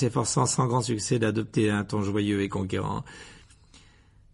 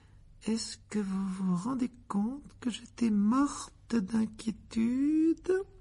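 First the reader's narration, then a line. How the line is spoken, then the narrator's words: Intimidating murmur. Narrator (French): dit Madame Wesley dans un murmure impressionnant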